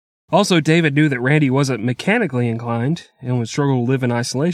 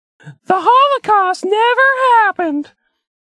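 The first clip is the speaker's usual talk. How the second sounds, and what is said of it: Put-on fake voice. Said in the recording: “I have to use a fake voice here”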